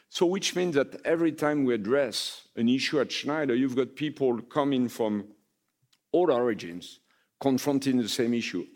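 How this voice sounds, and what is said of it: Non-native English accent. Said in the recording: “My accent, I think, is a good testimony to that.”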